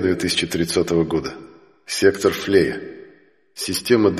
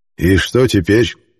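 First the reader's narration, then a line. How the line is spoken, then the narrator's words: Gloomy question. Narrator (Russian): мрачно спросил Хелиарх Прим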